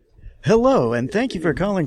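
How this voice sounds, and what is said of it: Radio-announcer style phone greeting voice. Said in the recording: “some kind of a low-level... you know, radio personality that does your phone voice.”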